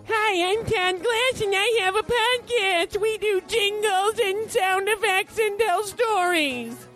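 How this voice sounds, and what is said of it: Impression of Todd Glass. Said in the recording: “Do your version of me ... I'm not doing an impression of you. I'm doing an accurate reflection.”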